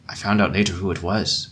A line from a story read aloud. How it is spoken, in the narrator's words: said in a guarded tone